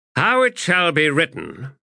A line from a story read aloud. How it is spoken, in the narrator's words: he said in a loud voice